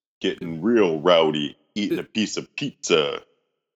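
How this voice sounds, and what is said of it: Exaggerated deep low-pitched voice. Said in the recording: “doing a deep voice ... Is that your whale voice? ... you'd probably have a deep voice”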